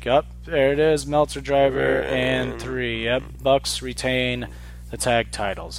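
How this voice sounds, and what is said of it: Unexcited imitation of sports commentators. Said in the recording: “that was our impression of Josh Barnett and Jim Ross ... the lack of overexcitement from them”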